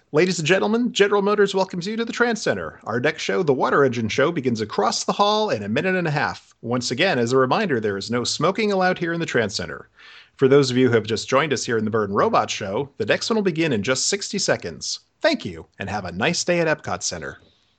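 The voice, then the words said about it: Theme park cast member announcement voice. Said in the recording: “my best CM impression”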